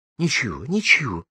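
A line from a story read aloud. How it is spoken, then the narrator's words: Loud repeat. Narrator (Russian): мама громко повторила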